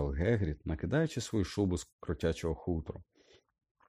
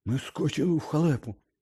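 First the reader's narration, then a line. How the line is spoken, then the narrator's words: Hoarse rasp. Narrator (Ukrainian): прохрипів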